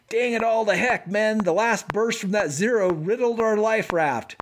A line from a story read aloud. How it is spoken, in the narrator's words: the pilot suddenly yells